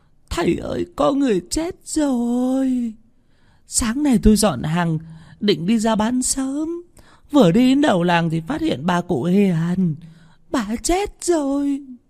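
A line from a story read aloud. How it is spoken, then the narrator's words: Tearful, near crying. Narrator (Vietnamese): Bà Hằng Nước mếu máo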